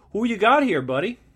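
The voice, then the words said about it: Bad put-on Canadian accent. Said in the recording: “That's the worst Canadian accent ever, eh?”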